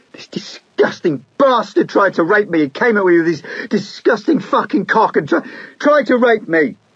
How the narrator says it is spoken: Erlin she yelled

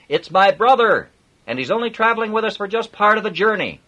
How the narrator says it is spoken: Robin shouted

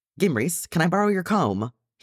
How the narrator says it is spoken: He hollered

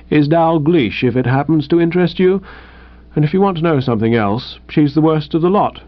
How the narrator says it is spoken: said Tuppy a little stiffly

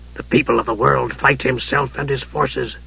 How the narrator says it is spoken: Dugan said softly

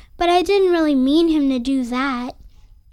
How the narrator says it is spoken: sighed Nellie

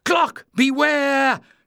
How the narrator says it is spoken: Jasmine screamed

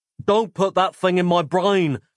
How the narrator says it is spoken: screamed Nick

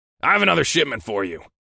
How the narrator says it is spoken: my boss said curtly

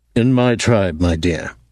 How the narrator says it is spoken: he said

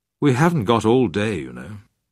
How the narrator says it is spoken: She smiled at my father wearily and said

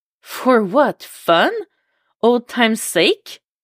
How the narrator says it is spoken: Her voice is incredulous

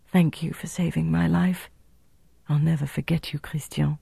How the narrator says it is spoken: she lowered her voice to an intimate murmur and said

